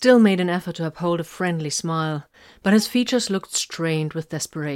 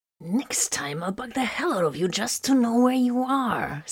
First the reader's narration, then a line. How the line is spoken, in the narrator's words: Solomon hissed